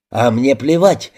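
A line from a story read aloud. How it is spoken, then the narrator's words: Barking. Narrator (Russian): рявкнул Джекоб Сейнт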